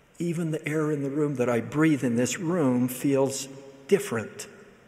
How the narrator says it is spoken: emotional and deeply touched, he whispered in my ear

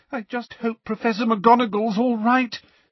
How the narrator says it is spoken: said Lavender tearfully

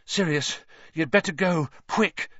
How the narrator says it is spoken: Harry panted

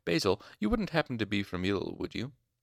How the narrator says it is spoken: Hem asked, smiling sharply

